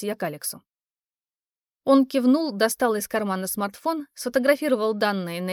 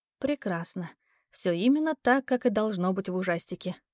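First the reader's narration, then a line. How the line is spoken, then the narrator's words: Muttered. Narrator (Russian): пробормотала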